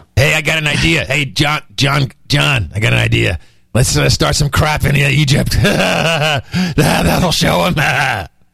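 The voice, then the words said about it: Evil villain voice with laugh. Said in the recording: “you got to do the voice. You don't sound evil when you talk like that. ... That's the laugh that gets me.”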